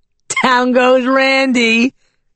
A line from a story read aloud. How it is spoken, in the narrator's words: his girlfriend said, laughing